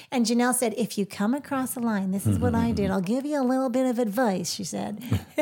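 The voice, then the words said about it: Put-on accent while quoting. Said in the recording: “Where did that accent come from?”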